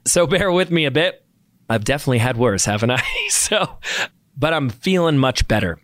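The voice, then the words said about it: Sick, slightly rough voice. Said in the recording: “I got a little sick... You can kind of hear it in my voice.”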